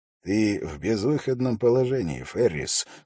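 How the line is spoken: Plain. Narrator (Russian): сказал он

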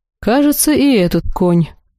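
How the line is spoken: Snorting. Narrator (Russian): хмыкнул Ихар

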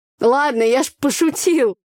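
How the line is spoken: Laughing. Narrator (Russian): засмеялся Андрей

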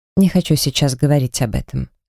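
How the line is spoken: Soft. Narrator (Russian): сказал он мягко

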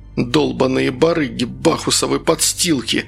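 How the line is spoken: Moaning. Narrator (Russian): стонал Саша

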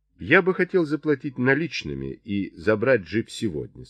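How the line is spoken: Plain. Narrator (Russian): сказал Чарли

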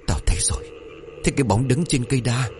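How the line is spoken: Trembling inner thought. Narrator (Vietnamese): Trong đầu của thằng chồng bấy giờ run rẩy

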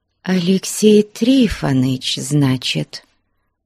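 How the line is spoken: Quiet. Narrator (Russian): тихо проговорила Аксинья Захаровна

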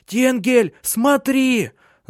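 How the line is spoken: Shouting. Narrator (Russian): закричала она

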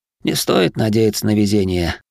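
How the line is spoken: Sighing. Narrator (Russian): вздохнул я

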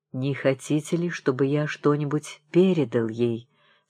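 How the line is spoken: Plain. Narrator (Russian): спросил священник

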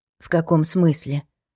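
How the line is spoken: Hoarse question, then coughing. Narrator (Russian): спросила она хрипло и тут же закашлялась

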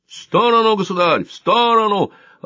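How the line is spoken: Yelling. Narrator (Russian): орал незнакомец

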